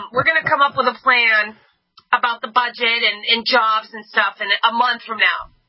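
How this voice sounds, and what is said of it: Schumer impression, New York accent. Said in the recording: “I'm trying to do his New York accent ... Schumer”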